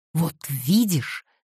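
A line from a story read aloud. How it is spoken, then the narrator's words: Triumphant exclamation. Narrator (Russian): торжествующе воскликнула Кассандра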